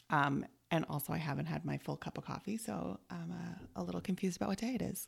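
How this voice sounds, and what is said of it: Slightly scratchy voice. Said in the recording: “My voice might be a little bit scratchier”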